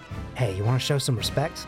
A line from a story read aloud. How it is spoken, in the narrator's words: Steve whispers to him